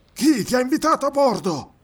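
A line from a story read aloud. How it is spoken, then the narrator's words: Angry yell. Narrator (Italian): urlò con rabbia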